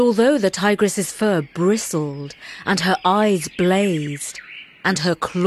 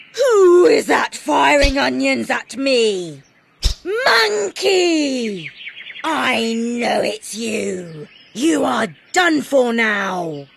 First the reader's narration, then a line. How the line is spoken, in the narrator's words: the tigress roared